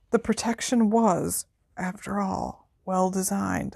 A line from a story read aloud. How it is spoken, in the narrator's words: said Dumbledore faintly